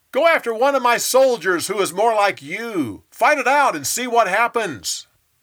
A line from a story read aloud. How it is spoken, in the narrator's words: He yelled back